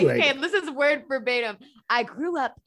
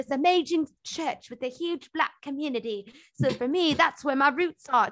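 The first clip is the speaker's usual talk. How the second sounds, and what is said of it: Put-on British accent. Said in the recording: “British accent ... I'm gonna do the accent.”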